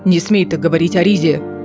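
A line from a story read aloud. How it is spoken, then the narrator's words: Growl. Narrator (Russian): прорычал Кассиан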